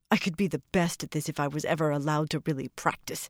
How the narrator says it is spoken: she grumbled sullenly

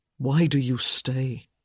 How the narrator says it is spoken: he asked in a low voice

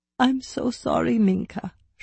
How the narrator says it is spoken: she sobbed

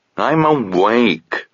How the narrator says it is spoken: grumbled Sabriel

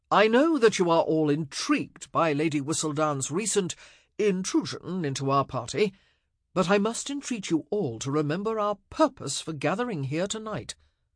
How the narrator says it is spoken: Anthony said loudly

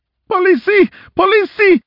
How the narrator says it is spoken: she screamed

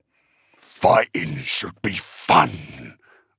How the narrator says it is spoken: Uftak continued to rumble from behind her

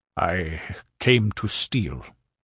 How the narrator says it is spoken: sullenly answered the other

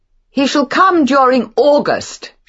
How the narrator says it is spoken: shouted Beatrice

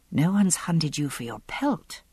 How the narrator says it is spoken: I said softly

